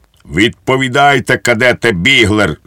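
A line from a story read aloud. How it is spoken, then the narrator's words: Defiant exclamation. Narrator (Ukrainian): з викликом вигукнув підпоручник Дуб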